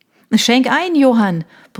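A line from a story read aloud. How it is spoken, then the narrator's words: Man bellowing. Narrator (German): brüllte Michael, der Mann ihrer besten Freundin Konstanze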